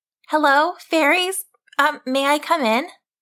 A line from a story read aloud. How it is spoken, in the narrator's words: Laurel stood outside the ring and called out